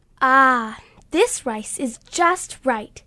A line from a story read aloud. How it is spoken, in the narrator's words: said happily